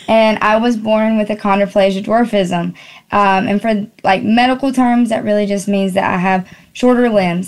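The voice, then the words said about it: North Carolina Southern accent. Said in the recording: “Born in North Carolina. Y'all can probably hear it in the accent.”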